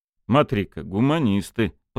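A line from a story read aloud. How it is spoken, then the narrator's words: Grumbled. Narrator (Russian): проворчал Кольцов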